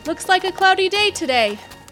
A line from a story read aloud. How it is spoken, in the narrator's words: Private Figuracion shouted to a riding companion nearby